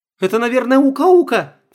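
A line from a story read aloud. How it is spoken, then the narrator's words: Frightened cry. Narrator (Russian): вскрикнула Света, прячась за отцом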